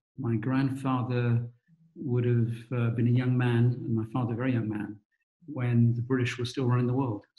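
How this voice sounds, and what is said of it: British accent. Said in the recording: “I'm British, you can tell by the accent.”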